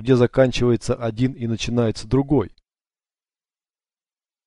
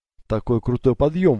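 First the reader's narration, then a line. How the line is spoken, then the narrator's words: Breathless exhale. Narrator (Russian): выдохнула София, догоняя его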